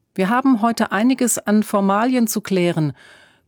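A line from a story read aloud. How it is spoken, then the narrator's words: Bellowing back. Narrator (German): brüllte Emma zurück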